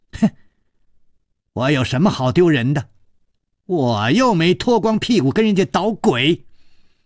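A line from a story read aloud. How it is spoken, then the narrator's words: Loud angry shouting. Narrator (Chinese): 薛红红他大声地叫着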